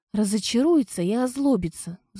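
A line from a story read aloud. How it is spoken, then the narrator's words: Sighing. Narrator (Russian): вздохнула я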